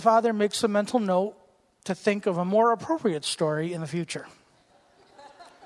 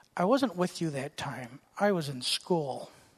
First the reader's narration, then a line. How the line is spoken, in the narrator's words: the whisper of the son